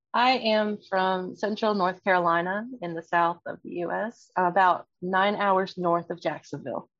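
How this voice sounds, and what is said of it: American accent. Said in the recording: “I'm guessing from your accent that you're from the US”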